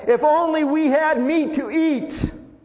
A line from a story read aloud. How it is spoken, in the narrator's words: the rabble with them began to crave other food, and again the Israelites started wailing and said